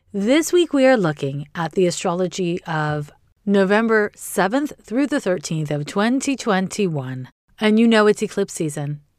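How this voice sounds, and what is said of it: Slightly hoarse voice. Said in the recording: “my voice is a little hoarse ... when I talk this much, my voice sounds weird”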